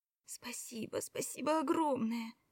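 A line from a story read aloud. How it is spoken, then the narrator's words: Whispered. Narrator (Russian): шептала она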